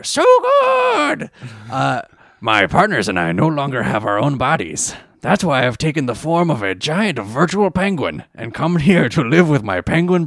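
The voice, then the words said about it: Cartoon character voice. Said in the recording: “read it in your Crump voice ... Strong Bad doing a character”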